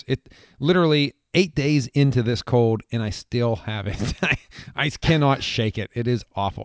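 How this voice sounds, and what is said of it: Hoarse voice. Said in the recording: “my voice is still hoarse”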